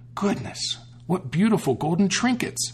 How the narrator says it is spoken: exclaimed

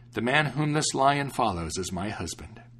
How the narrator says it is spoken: she exclaimed happily

